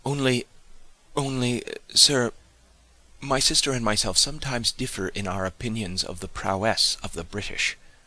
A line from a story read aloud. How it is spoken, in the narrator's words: after some little hesitation, and with a good deal of stammering in her manner, she replied